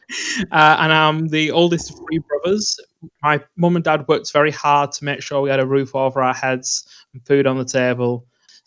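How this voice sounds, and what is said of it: Northern English accent. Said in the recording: “I love your accent, by the way.”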